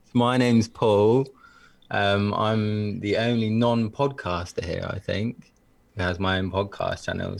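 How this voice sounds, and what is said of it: Attractive voice with an accent. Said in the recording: “Talk about sexy... It's the accent... And the voice.”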